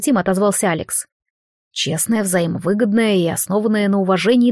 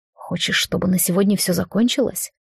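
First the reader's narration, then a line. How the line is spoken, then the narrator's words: Whispered in ear. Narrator (Russian): шепнул в ухо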